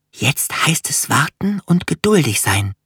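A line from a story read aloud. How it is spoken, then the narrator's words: Whispered into ear. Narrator (German): flüsterte Finja ihrer kleinen Schwester ins Ohr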